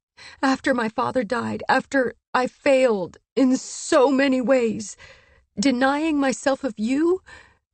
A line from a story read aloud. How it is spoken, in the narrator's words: she sobbed